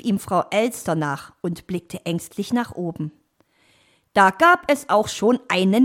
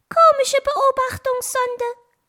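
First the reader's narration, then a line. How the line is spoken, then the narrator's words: Small bird calling. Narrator (German): rief der kleine blaue Vogel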